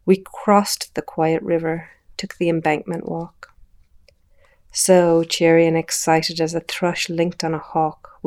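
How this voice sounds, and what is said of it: Soft lilting accent. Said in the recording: “the soft lilt of her accent”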